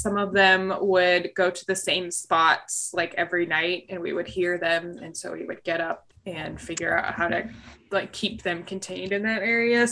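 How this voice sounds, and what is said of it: Voice slightly off from a cold. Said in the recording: “my voice is a little today. I'm coming down off of a what I thought was allergies turned into, I think, some kind of like cold”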